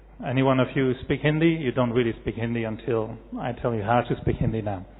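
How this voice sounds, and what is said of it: French accent. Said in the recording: “It's a French accent.”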